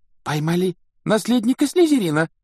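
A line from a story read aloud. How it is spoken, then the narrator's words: Girl exclaiming. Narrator (Russian): воскликнула какая-то девушка за столом Когтеврана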